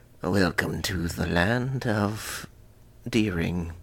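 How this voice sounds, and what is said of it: Creepy dungeon master wizard voice. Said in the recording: “creepy wizard accent ... Give me your best dungeon master voice”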